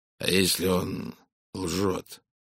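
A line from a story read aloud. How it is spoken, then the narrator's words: Hoarse. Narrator (Russian): хрипло проговорил американский миллионер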